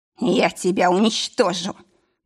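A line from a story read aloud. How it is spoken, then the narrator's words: Hoarse rasp. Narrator (Russian): прохрипел Морриган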